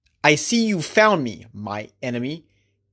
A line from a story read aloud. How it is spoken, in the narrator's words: Ahab spat